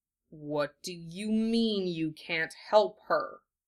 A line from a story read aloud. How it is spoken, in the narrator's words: He asked, letting his words out slowly, one at a time, so they didn't turn into snarling bites